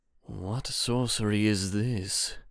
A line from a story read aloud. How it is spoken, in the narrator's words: He grumbled